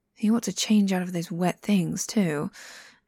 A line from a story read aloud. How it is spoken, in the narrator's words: Jiangxing sighs to himself